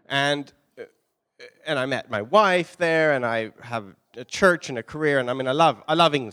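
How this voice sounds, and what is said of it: Mixed Canadian and English accent. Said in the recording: “I've been in England now for 21 years, which is why I have this weird accent”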